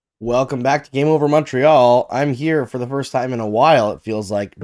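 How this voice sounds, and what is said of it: Congested, sick-sounding voice. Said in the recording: “Just getting over a cold, so I'm sorry about the voice.”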